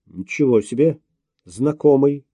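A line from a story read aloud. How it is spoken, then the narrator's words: Snorting. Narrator (Russian): хмыкнул Обнорский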